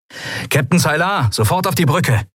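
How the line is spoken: Calling through speaking tube. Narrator (German): rief Sephiron in eines der Sprechrohre

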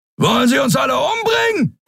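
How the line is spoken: Roar. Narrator (German): brüllte Thron

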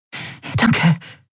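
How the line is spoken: Panting. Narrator (German): keuchte Nelen

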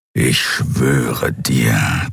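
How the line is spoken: Growled. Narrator (German): knurrte das Kriar

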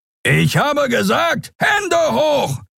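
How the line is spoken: Creature roaring. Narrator (German): brüllte der Skria

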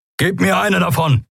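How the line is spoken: Called out. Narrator (German): rief Kero Endriel zu

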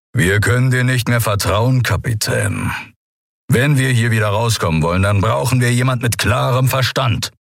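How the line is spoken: Surprisingly calm growl. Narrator (German): Überraschend gefasst knurrte er

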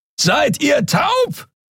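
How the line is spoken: Roaring across a distance. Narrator (German): brüllte Keru von der anderen Seite des Portals über die Kluft zwischen zwei Planeten hinweg

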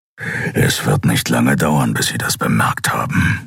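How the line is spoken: Growling. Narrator (German): knurrte Keru

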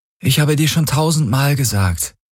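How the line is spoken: Tired reply. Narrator (German): gab sie müde zurück

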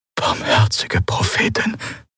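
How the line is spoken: Whispering. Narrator (German): flüsterte Quailor neben ihm

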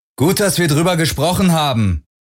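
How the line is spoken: Calling after someone. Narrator (German): rief Parker Garland nach

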